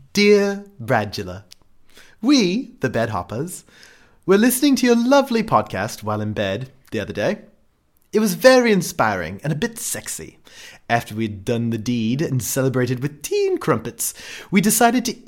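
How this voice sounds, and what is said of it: Exaggerated put-on British accent. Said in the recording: “I'm going to try to do it in my best British accent. I'm going to sound like Mike Myers doing Austin Powers”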